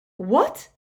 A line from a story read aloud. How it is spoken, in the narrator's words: snapped Umbridge